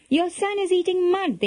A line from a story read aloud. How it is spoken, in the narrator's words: they cried, pointing accusingly